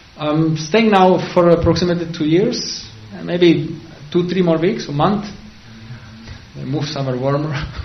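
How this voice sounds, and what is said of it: Czech-accented English. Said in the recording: “You cannot say according to my accent. ... Czech Republic.”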